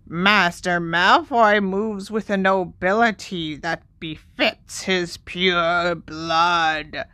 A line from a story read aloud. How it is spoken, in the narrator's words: croaked Creature at once